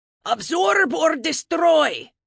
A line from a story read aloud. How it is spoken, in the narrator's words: Leif shouted on a loop like a broken record